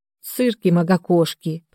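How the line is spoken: Grumbling. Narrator (Russian): проворчала я

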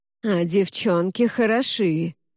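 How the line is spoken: Nasal voice. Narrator (Russian): снова заговорил Гнусавый

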